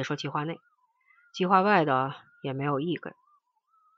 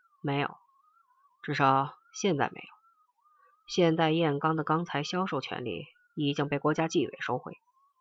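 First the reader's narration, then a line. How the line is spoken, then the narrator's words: Slow, unhurried, calm. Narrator (Chinese): 廖东南慢条斯理的说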